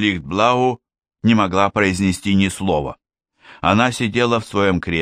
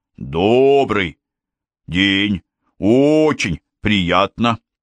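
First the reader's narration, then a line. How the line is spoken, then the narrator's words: Polite. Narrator (Russian): вежливо произнес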